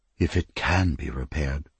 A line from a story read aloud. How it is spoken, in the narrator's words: whispered Sivrain